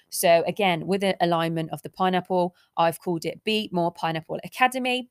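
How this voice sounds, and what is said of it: Excited, upbeat voice. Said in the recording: “I'm so, so excited for this journey, as you can probably tell by my voice.”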